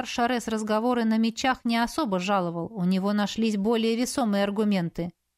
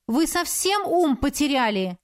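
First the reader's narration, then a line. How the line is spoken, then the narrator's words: Yelling. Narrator (Russian): заорала на магистра Шареза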